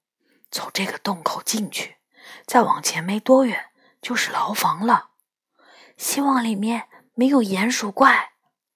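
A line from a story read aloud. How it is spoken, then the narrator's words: Low voice. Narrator (Chinese): 他低声说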